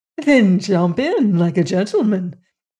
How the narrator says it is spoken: laughed the danseuse

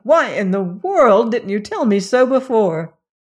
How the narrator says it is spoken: he cried

